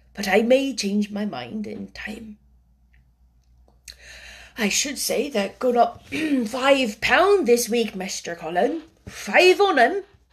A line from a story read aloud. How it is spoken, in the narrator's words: said hoarsely